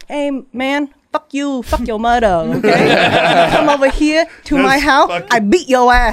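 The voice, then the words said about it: Put-on Vietnamese gangster voice. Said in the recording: “Your Vietnamese gangster guy voice? ... We need some sort of accent.”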